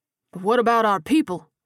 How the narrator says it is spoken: James stammered

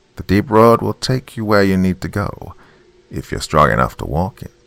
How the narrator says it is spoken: she said in a flat, disinterested tone

